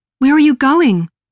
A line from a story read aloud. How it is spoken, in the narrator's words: cried